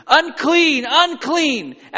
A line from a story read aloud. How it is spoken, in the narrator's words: put their hand over their mouth and they would shout